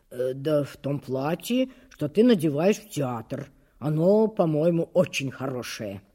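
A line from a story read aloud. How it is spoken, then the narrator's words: Muttering. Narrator (Russian): Он пробормотал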